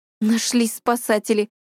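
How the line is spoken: Scoffing snort. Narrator (Russian): хмыкнула Васька

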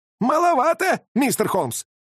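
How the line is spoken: Old man's shrill furious squeal. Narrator (Russian): пронзительно взвизгнул старик, и его лицо исказилось неописуемой злобой

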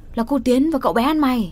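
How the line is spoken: Someone yelling. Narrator (Vietnamese): Tiếng ai đấy gào lên

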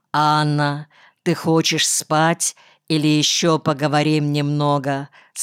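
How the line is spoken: Plain. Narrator (Russian): спросил он

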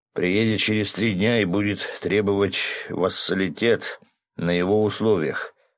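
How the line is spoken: Village elder sighing. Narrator (Russian): вздохнул староста

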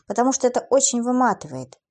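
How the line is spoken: Sighing young woman. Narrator (Russian): девушка вздохнула и добавила

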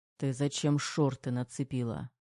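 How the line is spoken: Hoarse mutter. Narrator (Russian): Сипло пробормотал Терех

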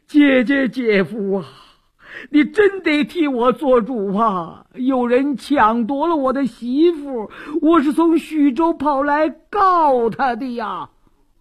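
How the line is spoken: Loud wailing. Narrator (Chinese): 李四禁不住哇哇大哭

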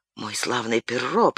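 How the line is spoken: Whisper. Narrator (Russian): прошептал граф

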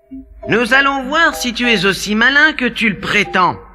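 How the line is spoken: Grumbling king. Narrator (French): grommela le roi

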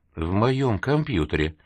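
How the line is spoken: Quiet whisper in ear. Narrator (Russian): Серега тихо прошептал Веронике на ухо

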